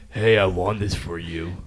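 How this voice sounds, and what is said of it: Put-on deep tough voice. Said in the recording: “You're trying to put that extra deep voice on ... trying to be tough. You're trying to put that deep voice on.”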